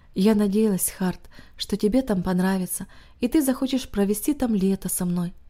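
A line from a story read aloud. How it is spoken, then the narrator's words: Worried, heavy sigh. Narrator (Russian): озабоченное выражение, тяжело вздохнув, она сказала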